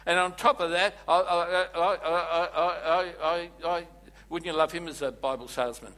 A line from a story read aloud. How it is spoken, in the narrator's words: I stutter